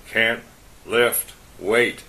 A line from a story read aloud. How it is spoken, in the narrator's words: he grunted